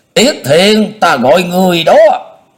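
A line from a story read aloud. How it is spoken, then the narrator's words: Loud shout. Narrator (Vietnamese): Lãnh Quyền hét lớn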